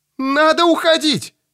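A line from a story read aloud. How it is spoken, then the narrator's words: Shouting over a storm. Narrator (Russian): воскликнула Мэри, возвысив голос над ревом ветра и над трескучими раскатами грома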